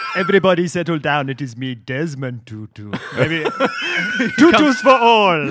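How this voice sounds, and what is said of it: Imitates another person's voice. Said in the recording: “Those are very good Desmond Tutus.”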